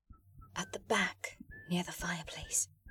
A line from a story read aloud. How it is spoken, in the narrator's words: Rosalind whispered